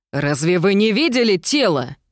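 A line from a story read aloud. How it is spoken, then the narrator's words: Desperate exclamation. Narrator (Russian): в отчаянии воскликнула тетя Шарлотта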